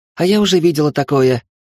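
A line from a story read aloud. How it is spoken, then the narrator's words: Hyperactive shout from above. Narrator (Russian): крикнула гиперактивная Соня откуда-то с потолка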